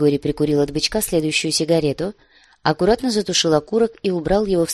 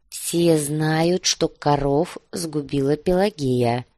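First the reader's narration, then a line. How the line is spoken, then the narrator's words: Muffled, dull. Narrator (Russian): глухо повторил однорукий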